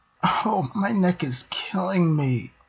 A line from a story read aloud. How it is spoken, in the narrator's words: she moaned